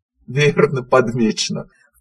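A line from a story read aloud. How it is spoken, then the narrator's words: Owl's soft laugh. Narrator (Russian): в полголоса рассмеялся филин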